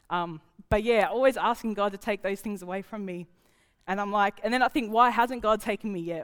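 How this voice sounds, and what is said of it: Emotional, breaking voice. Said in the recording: “my voice is breaking”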